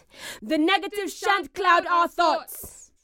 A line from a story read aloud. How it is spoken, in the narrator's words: the crowd shouted at once